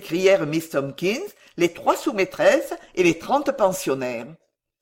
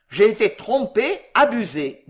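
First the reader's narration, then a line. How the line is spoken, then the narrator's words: Plain. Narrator (French): dit M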